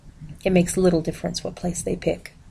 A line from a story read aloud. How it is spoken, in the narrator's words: she murmured